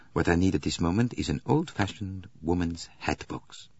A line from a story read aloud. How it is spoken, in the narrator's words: He murmured to himself